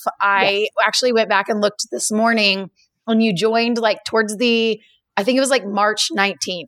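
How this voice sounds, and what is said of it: Hoarse voice from laryngitis. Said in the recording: “listen to me with my laryngitis. I am doing the best I can here.”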